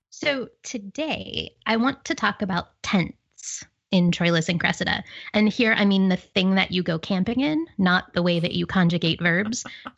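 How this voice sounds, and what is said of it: Pittsburgh accent. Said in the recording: “my Pittsburgh accent”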